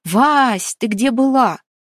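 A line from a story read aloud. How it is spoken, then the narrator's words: Agitated shouting. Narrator (Russian): прокричала взволнованная Оля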